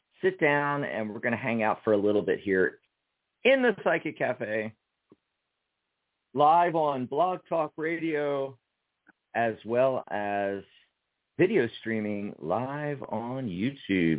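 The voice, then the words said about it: Slightly gravelly broadcast voice. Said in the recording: “You have a great radio voice ... sounding extra broadcasty today ... got a little gravelly”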